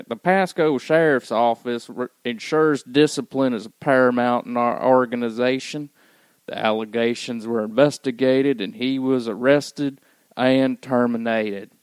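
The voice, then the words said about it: Put-on country accent. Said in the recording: “should I do it in a country accent?”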